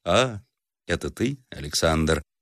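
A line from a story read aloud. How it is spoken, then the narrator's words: Thoughtful reply. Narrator (Russian): отвечал задумчивый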